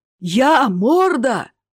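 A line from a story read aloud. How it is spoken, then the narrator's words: Roar. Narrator (Russian): взревел он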